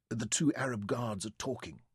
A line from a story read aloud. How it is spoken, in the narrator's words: Verity whispered back